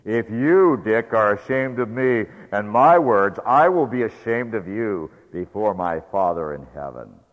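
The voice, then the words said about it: Loud, forceful voice. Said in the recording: “in a loud voice,”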